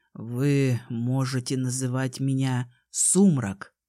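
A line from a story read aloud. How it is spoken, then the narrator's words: Low, restrained voice. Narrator (Russian): сказал он низким сдержанным тоном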